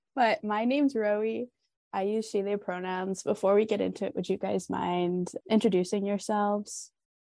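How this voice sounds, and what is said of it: Voice affected by a cold. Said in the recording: “I'm like getting over a cold right now, so my voice sounds a little crazy”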